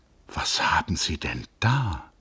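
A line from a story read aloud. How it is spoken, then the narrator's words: Quiet. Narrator (German): sagte Hans Castorp leise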